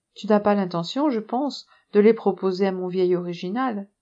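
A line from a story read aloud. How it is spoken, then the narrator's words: Playful question. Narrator (French): Puis d'un ton plaisant, Madame Bunbar demanda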